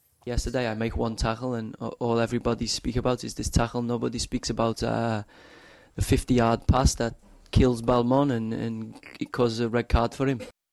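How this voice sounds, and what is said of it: Scouse speaker faking French accent. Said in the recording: “a sort of broken English accent that's meant to sound a bit German... that's a sort of Scouse French accent”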